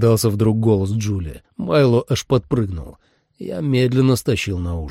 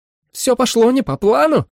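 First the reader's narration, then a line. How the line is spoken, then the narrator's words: Barking shout. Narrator (Russian): рявкнула Джули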